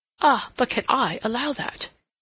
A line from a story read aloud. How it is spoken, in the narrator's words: he exclaimed